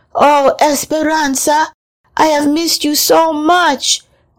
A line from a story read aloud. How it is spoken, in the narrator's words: Adelita cried